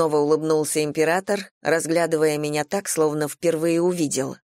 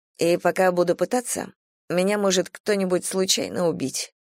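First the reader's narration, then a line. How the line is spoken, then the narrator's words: Quiet, calm, convinced. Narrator (Russian): проговорила я тихо, спокойно и сама себе верила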